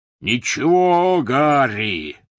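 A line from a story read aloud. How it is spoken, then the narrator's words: Roared. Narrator (Russian): взревел Хагрид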